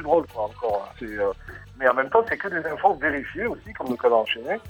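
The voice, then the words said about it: Sing-song southern French accent. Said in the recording (French): “accent très chantant et très joli ... je suis du sud”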